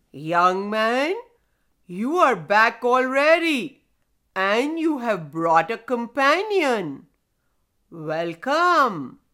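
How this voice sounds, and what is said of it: Deep storybook stone character voice. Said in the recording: “deep voice”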